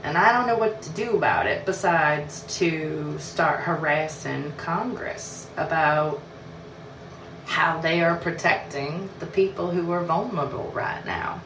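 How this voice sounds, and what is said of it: Bad put-on southern accent. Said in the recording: “I still apologize for the southern accent. I know that it doesn't get more better as I go. It just gets worse.”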